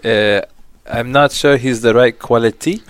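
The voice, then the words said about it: Bad Arsene Wenger impression, French accent. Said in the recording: “my Arsene Wenger terrible impression ... That's more French.”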